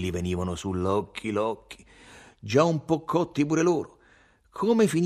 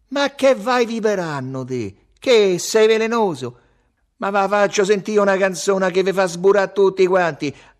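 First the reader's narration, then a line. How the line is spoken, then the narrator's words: Shouted. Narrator (Italian): Salvatore gridò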